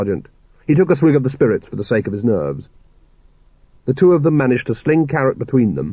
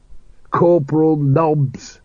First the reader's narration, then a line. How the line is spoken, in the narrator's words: he rasped